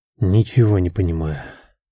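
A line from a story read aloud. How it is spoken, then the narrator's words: Low mutter to himself. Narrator (Russian): вполголоса пробормотал, говорил сам с собой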